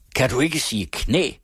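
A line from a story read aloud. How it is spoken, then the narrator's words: Loud, powerful shout. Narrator (Danish): råbte han endnu højere med sin stærke røst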